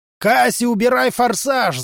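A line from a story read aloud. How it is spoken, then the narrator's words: Yelling with full force. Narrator (Russian): заорал Ори изо всех сил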